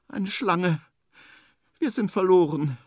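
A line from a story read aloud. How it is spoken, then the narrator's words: Thin, sad voice. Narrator (German): sagt mit dünner Stimme, und traurig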